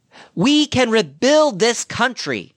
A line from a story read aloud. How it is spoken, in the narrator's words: I shouted